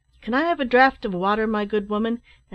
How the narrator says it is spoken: cried

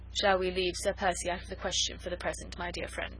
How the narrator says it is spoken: She said dryly

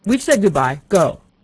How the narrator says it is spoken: he suddenly shouted in a loud, angry voice

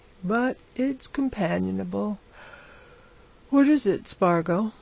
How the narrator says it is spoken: said, yawning

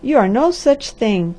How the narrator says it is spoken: cried the Harvester hotly

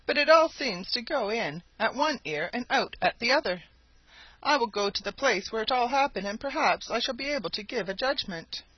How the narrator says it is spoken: said he, sadly

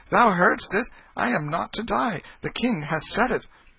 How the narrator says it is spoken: he turned a joyful face toward the two lords-in-waiting, and exclaimed

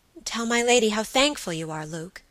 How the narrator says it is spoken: she said

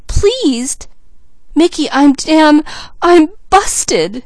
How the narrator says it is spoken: sobbed Mickey

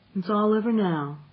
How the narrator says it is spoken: she said soothingly

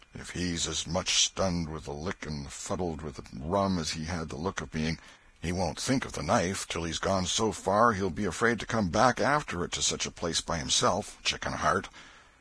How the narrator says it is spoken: He muttered

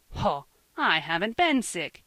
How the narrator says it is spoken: he cried on the third day, true to his nature

